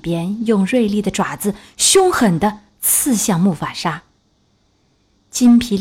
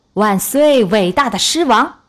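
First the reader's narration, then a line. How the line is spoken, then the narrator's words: Loud shout. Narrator (Chinese): 刀疤…高声喊道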